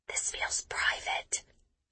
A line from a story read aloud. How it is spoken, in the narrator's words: I whisper to Kitty